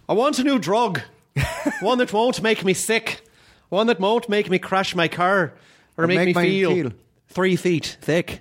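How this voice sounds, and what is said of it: Irish accent, Brendan Gleeson lisp. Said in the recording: “Your ... Irish ... I try to do the Brendan Gleeson thing where he does the little bit of a lisp ... It's just a little bit of a lisp”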